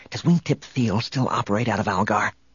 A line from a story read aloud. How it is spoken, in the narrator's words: Han whispered